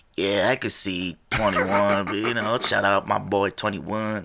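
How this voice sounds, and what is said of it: Bad imitation of another person's voice. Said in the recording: “that's a bad impression.”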